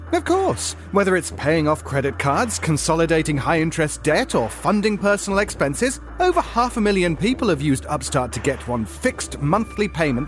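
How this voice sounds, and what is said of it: British accent. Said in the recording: “this glorious British accent”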